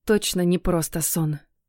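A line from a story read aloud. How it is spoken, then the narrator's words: Whispered. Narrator (Russian): прошептала я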